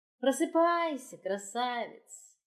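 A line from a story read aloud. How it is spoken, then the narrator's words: Gentle, affectionate. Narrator (Russian): ласково сказала Алусе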